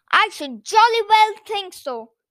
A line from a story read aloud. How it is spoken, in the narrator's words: Noddy shouted at them angrily